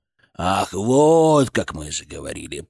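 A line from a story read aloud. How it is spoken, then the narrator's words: Creaky. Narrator (Russian): проскрипел он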